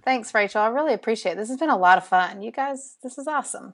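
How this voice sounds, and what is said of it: Southern US drawl. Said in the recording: “my Southern drawl ... I love your Southern drawl ... I've never met anyone from Alabama”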